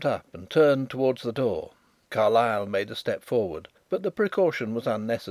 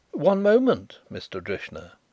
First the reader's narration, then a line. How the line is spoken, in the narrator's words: interposed Carrados in his smoothest tones